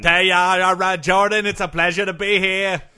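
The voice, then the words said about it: Boston accent. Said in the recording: “I can tell you have a bit of a Boston accent there. ... I do have a bit of a Boston accent.”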